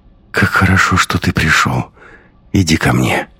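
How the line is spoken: Sleepy whisper. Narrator (Russian): Марго сонно прошептала

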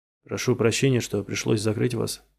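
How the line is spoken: Plain. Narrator (Russian): говорит доктор Кусум

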